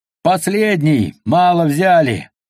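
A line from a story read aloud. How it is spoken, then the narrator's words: Shouting. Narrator (Russian): заорал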